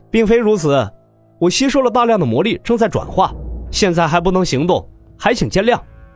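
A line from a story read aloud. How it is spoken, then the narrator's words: Ingratiating smile. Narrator (Chinese): 洛尘陪笑道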